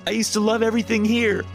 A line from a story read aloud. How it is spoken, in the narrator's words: I screamed